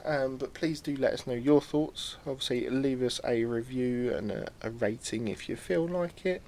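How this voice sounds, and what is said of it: Strained, struggling voice. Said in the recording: “My voice is struggling now. ... Yeah, I can tell. ... Apologies for the coughing you might have to put up with”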